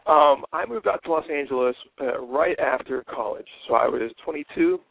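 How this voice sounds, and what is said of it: Hoarse voice. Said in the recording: “my voice is a little hoarse... my voice is fighting me here this morning”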